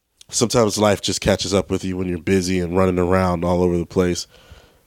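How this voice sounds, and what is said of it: Congested voice from a cold. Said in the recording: “you can tell that I'm getting over a cold. I have a cold.”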